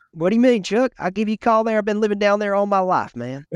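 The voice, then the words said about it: Put-on Southern US accent. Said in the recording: “you get a little bit of the accent, though, they can catch on to ... Sometimes we turn it on, dude.”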